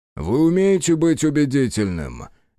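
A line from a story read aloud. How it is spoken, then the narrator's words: Businesslike tone. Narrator (Russian): деловым тоном произнес Митчелл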